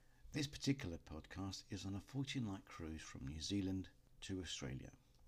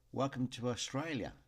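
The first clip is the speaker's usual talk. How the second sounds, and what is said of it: Imperfect put-on Australian accent. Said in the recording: “my Aussie accent isn't perfect”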